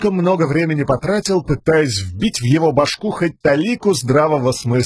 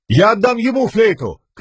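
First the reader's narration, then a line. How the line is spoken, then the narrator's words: Shouting. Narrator (Russian): крикнул он вслед Хойду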